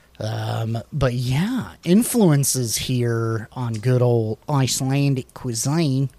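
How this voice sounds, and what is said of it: Put-on New Zealand accent. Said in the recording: “I keep doing a New Zealand accent. I don't know why.”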